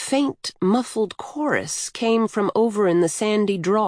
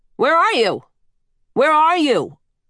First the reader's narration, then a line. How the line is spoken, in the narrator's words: she shouted